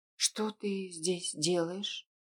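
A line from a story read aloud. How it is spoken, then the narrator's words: Tense voice. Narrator (Russian): Напряженным голосом поинтересовалась она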